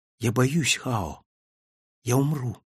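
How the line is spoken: Whispered again. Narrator (Russian): опять прошептала

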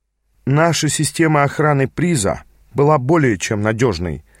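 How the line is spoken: Even, flat tone. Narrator (Russian): заявил ровным тоном наш проводник

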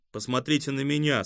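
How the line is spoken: Plain. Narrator (Russian): сказал Ламка

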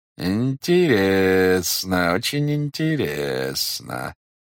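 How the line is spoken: Drawled. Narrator (Russian): протянул следователь

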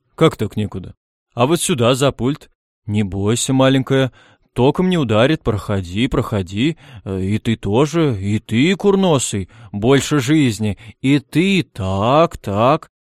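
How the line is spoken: Deep booming voice. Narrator (Russian): И густой голос Перси Диксона прогудел

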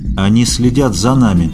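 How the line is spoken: Muffled voice. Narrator (Russian): глухим голосом повторил Аскольд

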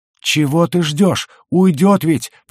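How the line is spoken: Hoarse rasp. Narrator (Russian): просипел Кликли

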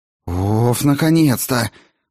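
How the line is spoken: Groaning relief. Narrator (Russian): простонала Клара

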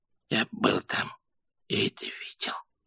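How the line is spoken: Whisper. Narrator (Russian): прошептал Дон Китти

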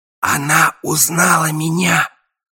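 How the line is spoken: Whispered. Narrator (Russian): шепнул я слону

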